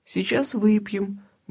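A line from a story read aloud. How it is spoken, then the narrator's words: Caring mutter. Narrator (Russian): бормотала она заботливо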